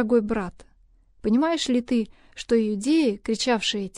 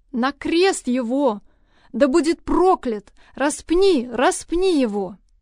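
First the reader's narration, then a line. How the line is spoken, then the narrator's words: Crowd shouting in unison. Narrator (Russian): В ответ они в один голос закричали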